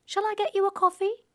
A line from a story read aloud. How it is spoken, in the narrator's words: asks cheerfully